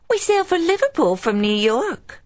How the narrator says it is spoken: Jessica exclaimed, mocking her acquaintance

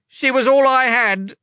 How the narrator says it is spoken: Leta cried

